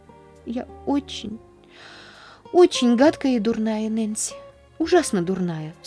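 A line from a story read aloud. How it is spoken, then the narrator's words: Sobbing. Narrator (Russian): всхлипнула она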